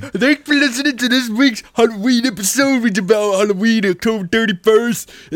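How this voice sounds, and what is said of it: Cartoonish character voice. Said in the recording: “You sound like a Simpsons character”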